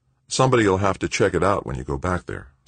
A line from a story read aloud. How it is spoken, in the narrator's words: said Anson